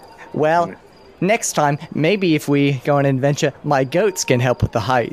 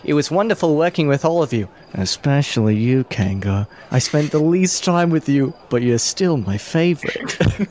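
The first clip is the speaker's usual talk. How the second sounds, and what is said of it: Whispering, but still audible. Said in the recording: “I was trying to whisper.”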